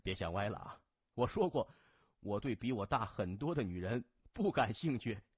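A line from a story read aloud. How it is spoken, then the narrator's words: Laughing. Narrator (Chinese): 谢文东哈哈一笑说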